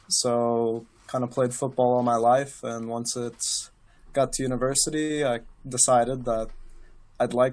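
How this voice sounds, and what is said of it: American Midwestern accent. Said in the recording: “that accent is not a Geordie one ... originally, I'm from Missouri, around the Kansas City area”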